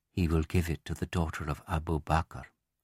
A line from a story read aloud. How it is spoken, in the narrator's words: Some of the wives began to whisper wryly to each other